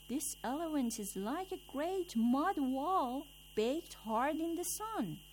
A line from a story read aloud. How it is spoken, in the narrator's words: the first man at once cried out